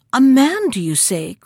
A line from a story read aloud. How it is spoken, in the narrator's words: cried Graziella